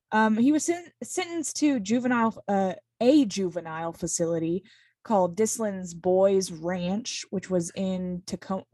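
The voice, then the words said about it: Strong Southern American accent. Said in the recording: “my accent came out so strong when I said the word ranch... I am a Southern woman.”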